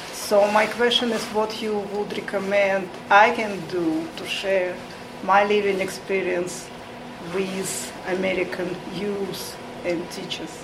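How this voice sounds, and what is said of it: Heavy Russian-type accent. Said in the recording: “as you can hear, my heavy accent came from Soviet Union, the USSR”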